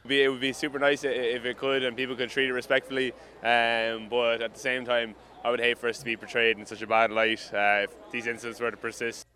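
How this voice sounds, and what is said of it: Irish accent. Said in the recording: “an Irish accent”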